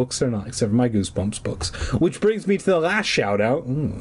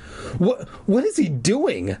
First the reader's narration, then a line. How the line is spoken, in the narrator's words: Clark stammered